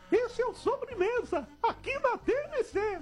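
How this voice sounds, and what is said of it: Mickey Mouse cartoon voice. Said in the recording (Portuguese): “Eu sei imitar o Mickey ... Boa imitação. Foi muito boa”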